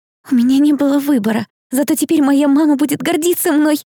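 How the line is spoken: Blurted out. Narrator (Russian): выпалила Хелли

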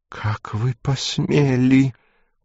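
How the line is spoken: Hissing voice. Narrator (Russian): произнесла она шипящим голосом

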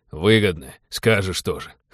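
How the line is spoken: Snorting chuckle. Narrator (Russian): хмыкнул Винни

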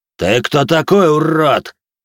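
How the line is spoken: Roaring. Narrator (Russian): проревел он

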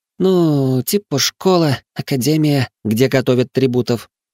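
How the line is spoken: Uncertain mumble. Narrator (Russian): неуверенно пробормотала Тара

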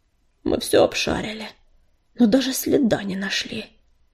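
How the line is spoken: Tired. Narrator (Russian): устало говорил отец

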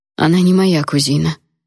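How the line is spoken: Dry, curt retort. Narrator (Russian): сухо отрезала я

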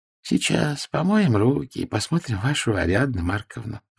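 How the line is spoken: Cozy cooing. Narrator (Russian): уютно проворковала доктор

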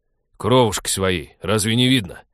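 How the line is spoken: Barked, haggard. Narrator (Russian): рявкнул Вадим в противовес ребенку, заметно осунувшийся и побледневший

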